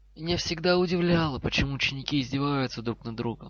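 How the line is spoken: Sighing voice. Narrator (Russian): вздохнул голос

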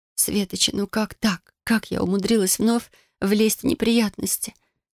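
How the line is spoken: Quiet moan. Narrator (Russian): негромко простонала

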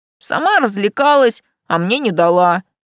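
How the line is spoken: Muttered. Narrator (Russian): пробурчал он

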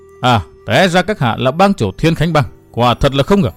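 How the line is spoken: Cold laughing speech. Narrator (Vietnamese): Thiếu nữ bịt mặt áo đen cười lạnh lùng nói

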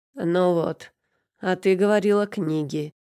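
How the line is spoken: Smirking grunt. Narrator (Russian): хмыкнул чертов ломолюб

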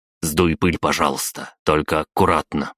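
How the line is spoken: Curt clipped speech. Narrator (Russian): отрывисто проговорил я

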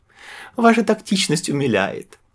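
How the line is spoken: Burst out laughing. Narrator (Russian): расхохоталась Юлия

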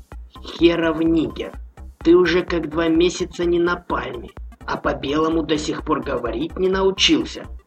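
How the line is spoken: Deliberately calm, sergeant. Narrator (Russian): нарочито спокойно произнес старший сержант

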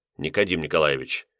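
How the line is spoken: Gentle rebuke. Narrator (Russian): мягко осадил капитана Булгаков

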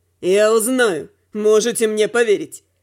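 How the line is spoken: Snorting. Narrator (Russian): хмыкнула Рук

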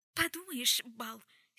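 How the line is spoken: Angry, hysterical edge. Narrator (Russian): сердито воскликнула Джессамина, но в голосе прорезались истерические нотки

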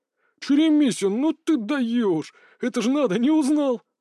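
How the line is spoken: Stunned exclamation, then laughter. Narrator (Russian): Ошарашенно воскликнул учитель и захохотал

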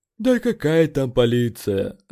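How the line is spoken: Sighed. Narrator (Russian): вздохнул Эд

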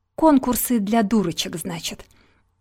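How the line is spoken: Angry sniffing. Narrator (Russian): Юна сердито засопела

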